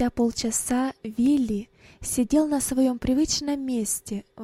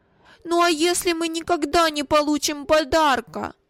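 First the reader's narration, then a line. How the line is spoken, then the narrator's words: Timid tearful objection. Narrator (Russian): осмелился возразить плачущим тоном Вилли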